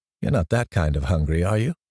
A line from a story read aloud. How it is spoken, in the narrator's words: she says